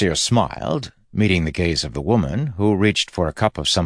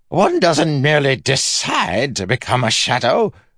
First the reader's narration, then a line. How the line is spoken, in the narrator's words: exclaimed